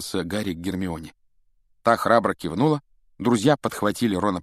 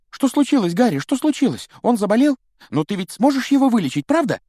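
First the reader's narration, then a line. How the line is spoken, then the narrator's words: Rapid chatter. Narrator (Russian): тараторил Колин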